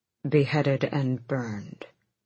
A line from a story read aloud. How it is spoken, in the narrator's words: Gabriel said grimly